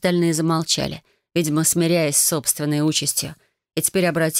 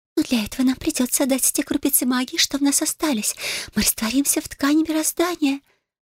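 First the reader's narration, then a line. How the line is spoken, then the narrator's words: Displeased squeak. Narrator (Russian): пискнула вода, которая, видимо, совсем не была довольна всем этим планом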